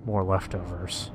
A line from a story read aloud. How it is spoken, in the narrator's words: Joe murmured